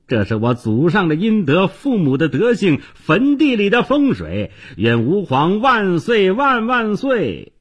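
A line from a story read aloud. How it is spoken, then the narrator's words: Wild laughing shouts. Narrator (Chinese): 姓崔的纨绔子弟误以为是自己中了，一边跑一边狂笑大叫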